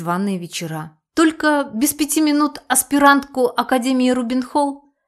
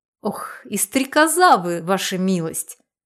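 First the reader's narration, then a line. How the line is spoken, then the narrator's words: Old woman laughing. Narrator (Russian): рассмеялась старушка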